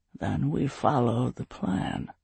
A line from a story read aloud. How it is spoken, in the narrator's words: Anik growled